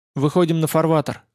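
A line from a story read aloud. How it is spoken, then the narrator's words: Plain. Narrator (Russian): сказал я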